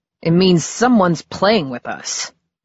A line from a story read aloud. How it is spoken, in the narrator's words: growled Eddie